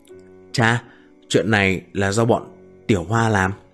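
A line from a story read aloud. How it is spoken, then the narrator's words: Low voice. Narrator (Vietnamese): Diệp Thiên kéo cha nhỏ giọng nói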